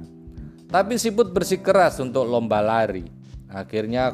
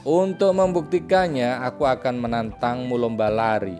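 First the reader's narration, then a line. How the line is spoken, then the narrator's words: Plain. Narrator (Indonesian): ucap Siput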